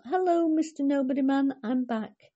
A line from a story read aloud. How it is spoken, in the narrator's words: called out